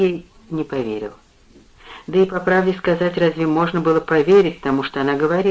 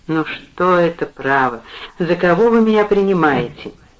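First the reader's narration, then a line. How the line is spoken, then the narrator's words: Said after a silly laugh. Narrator (Russian): смеялся обычным своим глупым смехом, а потом сказал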